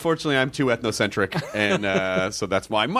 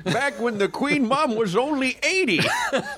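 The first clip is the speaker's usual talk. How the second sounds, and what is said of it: Old man prospector voice. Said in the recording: “We both got the same old man voice ... yours is weirdly not British ... mine was this guy. He's kind of the prospector.”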